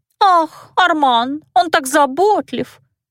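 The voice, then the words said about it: Mocking squeaky high-pitched voice. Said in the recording (Russian): “передразнила Дельфин писклявые голоски фрейлин”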